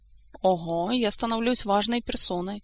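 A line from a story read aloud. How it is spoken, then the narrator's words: Snorting remark. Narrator (Russian): хмыкнул Кантор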